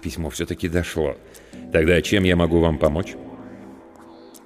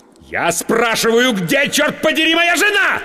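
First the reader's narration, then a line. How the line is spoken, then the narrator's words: Snapping, furious yell. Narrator (Russian): сорвавшись, заорал я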